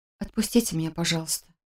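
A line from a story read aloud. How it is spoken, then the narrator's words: Whisper. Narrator (Russian): прошептала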